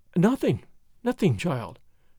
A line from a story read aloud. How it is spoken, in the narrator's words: she murmured, as if in a dream